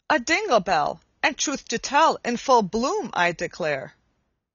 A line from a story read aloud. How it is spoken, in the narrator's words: Mary exclaimed